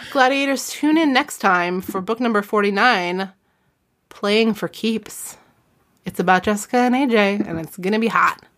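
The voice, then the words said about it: Howard Stern-style radio voice. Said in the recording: “I got back to the Howard Stern in the end... radio voice”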